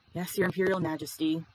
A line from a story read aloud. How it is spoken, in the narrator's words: Lan Qiren sighed